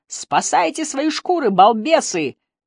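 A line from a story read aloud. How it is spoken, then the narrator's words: Yelling, gleeful laughter. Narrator (Russian): заорал Бриттон и ликующе засмеялся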